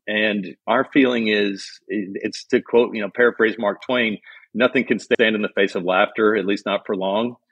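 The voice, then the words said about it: Kentucky accent. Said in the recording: “you grew up in Kentucky, as we could tell from the accent”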